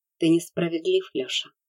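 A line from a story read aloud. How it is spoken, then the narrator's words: Gentle motherly voice. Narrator (Russian): мягко сказала мать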